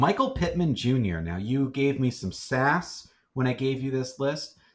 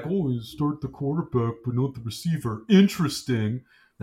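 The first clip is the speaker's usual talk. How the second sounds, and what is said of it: Imitates another person's voice. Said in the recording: “That's my impression of you.”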